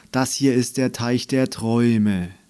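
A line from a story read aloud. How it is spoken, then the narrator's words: Deep sigh. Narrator (German): seufzte tief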